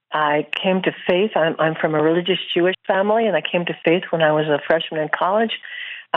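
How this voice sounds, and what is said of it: American accent. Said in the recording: “My American accent is because I was born in the U.S.”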